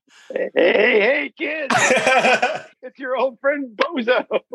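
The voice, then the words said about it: Cartoon clown character voice. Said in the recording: “my Krusty the Clown impression”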